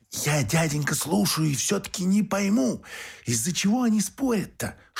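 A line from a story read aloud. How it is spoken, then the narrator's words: Whisper. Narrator (Russian): шепотом обратилась Марфуша к Феогносту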